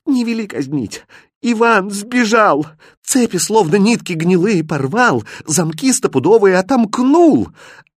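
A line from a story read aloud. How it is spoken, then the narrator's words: Joyful cry. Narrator (Russian): Радостно вскрикнула Настенька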